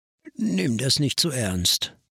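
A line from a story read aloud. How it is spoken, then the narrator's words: Tired. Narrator (German): sagte müde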